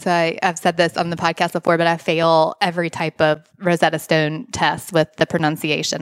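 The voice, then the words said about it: Strong Southern US accent. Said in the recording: “I have a very strong Southern accent.”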